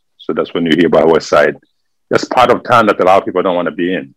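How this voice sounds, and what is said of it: French-accented English. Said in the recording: “this is where we speak French over there. That's why you can hear from my accent. I speak French.”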